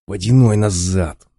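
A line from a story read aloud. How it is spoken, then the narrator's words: Hiss. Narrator (Russian): зашипел Кварц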